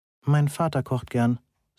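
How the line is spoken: Plain. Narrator (German): sagte ich

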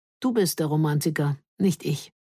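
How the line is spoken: With a wistful sigh. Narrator (German): Mit einem kleinen, wehmütigen Seufzen sagte

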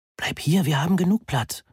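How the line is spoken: Whispered. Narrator (German): flüsterte Moni

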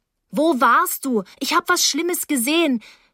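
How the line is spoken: Loud call. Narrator (German): Ich rief laut

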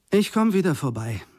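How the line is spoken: Plain. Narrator (German): sagte ich

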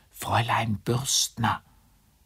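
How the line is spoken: Urgent helpless whisper. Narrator (German): In seiner Hilflosigkeit und da keine Zeit zu verlieren war, flüsterte er durch den Türspalt

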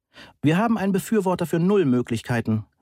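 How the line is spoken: Calling. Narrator (German): rief Johansen

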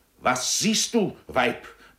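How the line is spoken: Roared. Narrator (German): brüllte Francoeur

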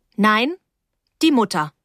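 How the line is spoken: Stern. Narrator (German): sagte ich streng

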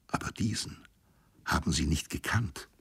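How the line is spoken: Soft male whisper. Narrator (German): flüsterte er leise

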